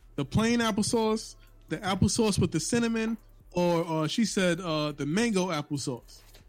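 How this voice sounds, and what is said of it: New York accent. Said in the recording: “your New York accent just comes dead to the forefront, and applesauce is one of”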